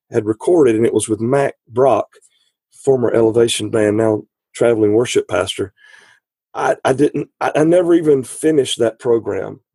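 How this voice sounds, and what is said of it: Weird voice from a cold. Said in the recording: “I've got this really weird voice cold thing going”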